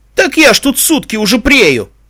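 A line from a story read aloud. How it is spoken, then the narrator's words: Tearful wail. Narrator (Russian): Со слезливыми нотками в голосе взвыл коридорный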